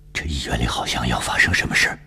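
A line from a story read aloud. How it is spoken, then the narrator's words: Tense low voice. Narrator (Chinese): 他压低嗓音紧张地对我说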